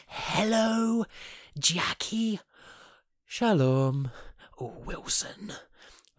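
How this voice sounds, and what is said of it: Impression of Jim from Friday Night Dinner. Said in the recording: “a very brief impression of Jim ... That's his generally how he sounds.”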